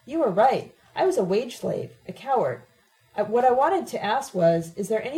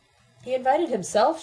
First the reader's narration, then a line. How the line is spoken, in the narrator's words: she said calmly